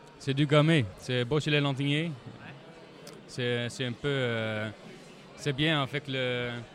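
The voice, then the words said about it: Dutch accent speaking French. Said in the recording (French): “Mais ton accent, il est d'où ? ... Nous sommes hollandais d'origine.”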